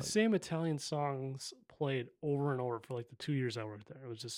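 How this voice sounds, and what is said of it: Usual voice. Nothing is said of it.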